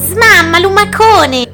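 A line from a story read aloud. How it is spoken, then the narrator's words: Ants shouting together. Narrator (Italian): gli urlarono le formiche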